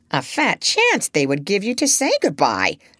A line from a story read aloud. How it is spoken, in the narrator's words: snorted Polynesia, growing impatient at last